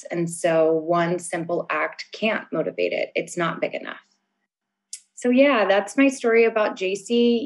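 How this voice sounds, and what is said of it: Shaky, emotional voice. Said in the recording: “as you can hear, my voice is shaking”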